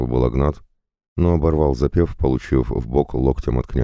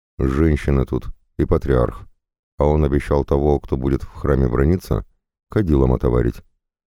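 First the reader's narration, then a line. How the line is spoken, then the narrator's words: Flat, colorless explanation. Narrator (Russian): бесцветным тоном пояснил Всеслав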